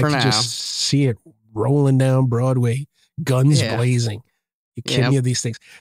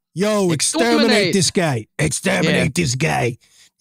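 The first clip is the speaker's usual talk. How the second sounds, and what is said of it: Put-on New York gangster accent. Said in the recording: “With a New York accent. ... now I sound like a 40s gangster.”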